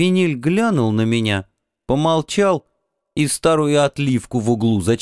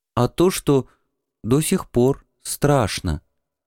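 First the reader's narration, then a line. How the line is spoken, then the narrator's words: Quiet reply, young man. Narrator (Russian): тихо ответил малый Крис Симар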